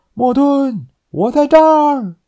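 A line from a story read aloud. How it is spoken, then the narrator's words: Loud shout skyward. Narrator (Chinese): 尼尔斯……对着天空大喊道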